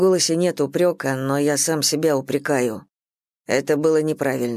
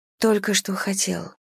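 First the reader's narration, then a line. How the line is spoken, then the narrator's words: Quiet speech. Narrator (Russian): тихо произносит она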